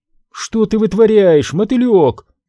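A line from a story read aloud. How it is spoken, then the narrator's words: Old woman shouting. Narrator (Russian): крикнула старушка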